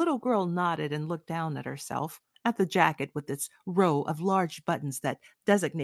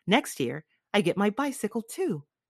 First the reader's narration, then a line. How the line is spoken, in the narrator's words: she added more cheerfully